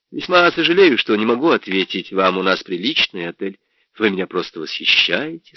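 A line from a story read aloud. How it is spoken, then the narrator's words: Plain. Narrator (Russian): сказал я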